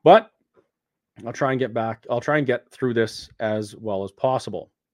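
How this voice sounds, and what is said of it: Voice affected by a cold. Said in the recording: “I have a little bit of a cold, it seems. So my voice isn't exactly good.”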